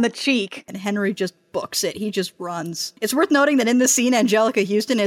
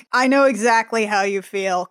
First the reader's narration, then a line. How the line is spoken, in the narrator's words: starts laughing and is like